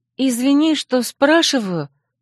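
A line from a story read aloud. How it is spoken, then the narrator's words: Timid speech. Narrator (Russian): робко проговорила она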